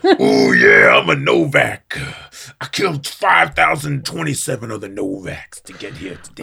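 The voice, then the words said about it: Macho Man Randy Savage impression. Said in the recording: “this guy started off like Mad Max. Ooh, yeah. Not Mad Max. Macho Man Randy Savage.”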